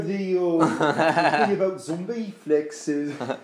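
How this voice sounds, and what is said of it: Dramatic caricatured British accent. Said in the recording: “That's a dramatic caricature of a British guy.”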